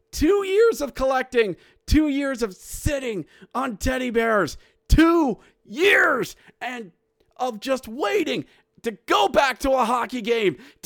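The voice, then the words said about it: Excited yelling. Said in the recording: “Am I yelling? I'm yelling.”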